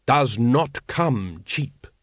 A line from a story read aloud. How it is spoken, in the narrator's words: growled the Supreme Grand Master